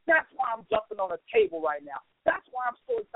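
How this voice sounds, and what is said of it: Excited shouting. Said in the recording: “I'm screaming”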